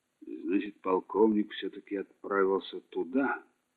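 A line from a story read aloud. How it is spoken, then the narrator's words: Grumbled. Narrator (Russian): буркнул он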